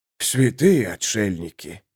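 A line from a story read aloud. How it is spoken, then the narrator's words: Breathless exclamation. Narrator (Russian): выдохнул Саймон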